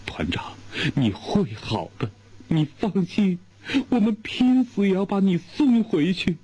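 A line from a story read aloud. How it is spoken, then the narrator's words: Crying. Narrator (Chinese): 油娃子哇的哭了，他哭着说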